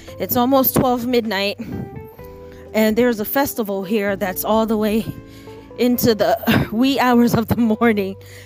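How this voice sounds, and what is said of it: Out of breath, panting voice. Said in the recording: “my voice is like this and why I'm panting. That's because I am walking on very, very hard ground”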